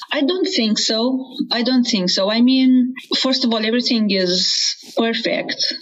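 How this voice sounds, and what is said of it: Non-native English accent. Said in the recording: “I'm aware of this accent, I'm trying to make it as American as possible, but that's never going to be possible”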